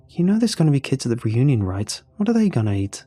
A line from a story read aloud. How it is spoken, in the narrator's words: I asked